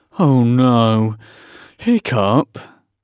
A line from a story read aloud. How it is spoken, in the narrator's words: groaned Dog's Breath the Durbrain and most of the other boys